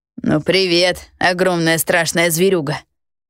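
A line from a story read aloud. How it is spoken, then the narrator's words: Laughing. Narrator (Russian): хохотнул Гидеон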